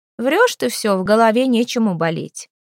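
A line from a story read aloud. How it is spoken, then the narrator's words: Mocking remark. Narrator (Russian): насмешливо заметила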